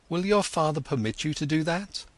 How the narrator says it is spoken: exclaimed

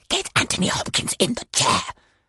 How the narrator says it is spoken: I rasped into Julian, the floor manager's feed

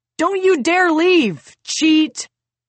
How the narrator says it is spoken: Peter shouting

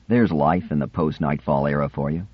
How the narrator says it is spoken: he said sadly to Sephira

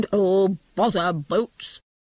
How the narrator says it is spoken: said crossly

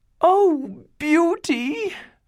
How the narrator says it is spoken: cried the older sisters

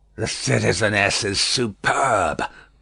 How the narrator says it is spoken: croaked the juryman

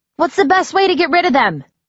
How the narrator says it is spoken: I yelled to Mr

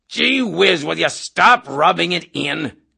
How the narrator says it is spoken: Colonel Cathcart cried

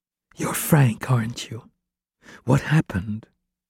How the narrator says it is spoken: Rachel whispered to him

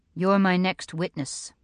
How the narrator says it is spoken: he says evenly

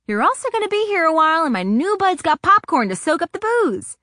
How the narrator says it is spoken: she shouted back

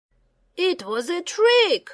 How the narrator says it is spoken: yelled

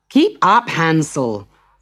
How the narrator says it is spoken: shouted the boy's stepmother

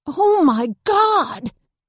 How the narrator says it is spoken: Jen gasped again

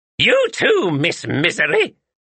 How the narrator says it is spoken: snapped the witch

